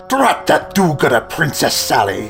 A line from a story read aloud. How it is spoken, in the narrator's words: he hissed